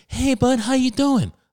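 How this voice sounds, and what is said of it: High-pitched voice. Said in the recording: “they sound like fucking Charlie Day from It's Always Sunny. They got like the high pitched voice.”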